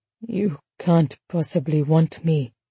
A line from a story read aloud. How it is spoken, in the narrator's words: he whispered